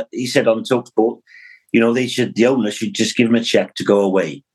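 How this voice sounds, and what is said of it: Imitates a Welsh man's voice. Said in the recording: “the little Welsh fella ... That was a brilliant impression.”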